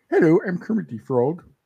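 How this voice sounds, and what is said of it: Poor cartoon frog character voice. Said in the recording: “That was a terrible impersonation.”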